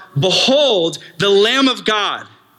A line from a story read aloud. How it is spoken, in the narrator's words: He yells out